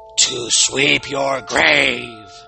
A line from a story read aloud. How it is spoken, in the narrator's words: Rawhead boomed, his enchanted voice echoing through the woods, getting louder and louder with each echo